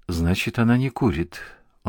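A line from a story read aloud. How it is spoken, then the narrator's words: Sigh. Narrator (Russian): он вздохнул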